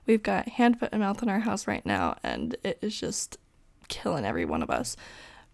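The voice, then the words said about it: Hoarse voice from sore throat. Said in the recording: “I'm so sorry for the way my voice sounds. I've got such a sore throat.”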